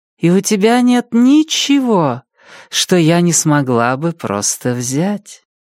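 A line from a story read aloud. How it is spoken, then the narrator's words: Warm tone. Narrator (Russian): Таким же теплым тоном Ранея сказала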